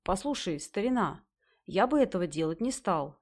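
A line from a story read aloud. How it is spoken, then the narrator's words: Plain. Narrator (Russian): сказал главный философ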